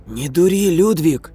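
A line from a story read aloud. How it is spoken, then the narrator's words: Careful hoarse wheeze. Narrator (Russian): аккуратно просипел я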